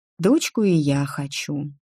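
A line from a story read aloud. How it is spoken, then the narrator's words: Spoken quietly. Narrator (Russian): тихо проговорила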